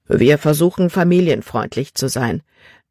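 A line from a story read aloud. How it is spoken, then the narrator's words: Plain. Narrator (German): antwortete Kapitän Norstad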